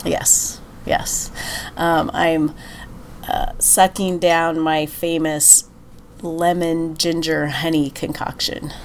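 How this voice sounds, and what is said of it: Congested voice from a cold. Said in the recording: “I'm at the end of a cold ... You can probably tell ... people listening can probably hear that my voice sounds a little bit different”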